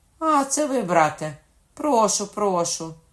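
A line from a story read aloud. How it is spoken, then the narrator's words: Said loudly. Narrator (Ukrainian): Генріх сказав голосно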